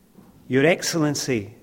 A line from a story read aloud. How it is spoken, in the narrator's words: they said